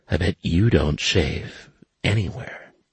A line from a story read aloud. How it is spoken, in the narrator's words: She … whispered